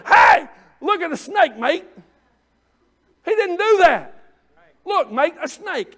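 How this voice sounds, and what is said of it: Put-on Australian accent. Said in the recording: “He didn't do that in the Australian accent.”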